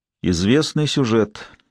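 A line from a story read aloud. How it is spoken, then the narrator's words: Gloomy. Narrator (Russian): мрачно сказал Лэнгдон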